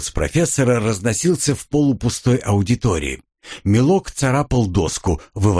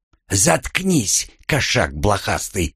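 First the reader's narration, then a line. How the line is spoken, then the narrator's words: Hissing. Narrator (Russian): зашипела вампирша на оборотня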